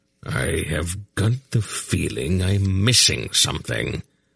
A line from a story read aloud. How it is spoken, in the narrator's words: he muttered